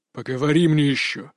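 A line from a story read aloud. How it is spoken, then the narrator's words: Growled. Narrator (Russian): рыкнул мужчина в костюме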